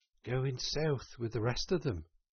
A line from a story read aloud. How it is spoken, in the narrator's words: murmured the rat in dreamy monotone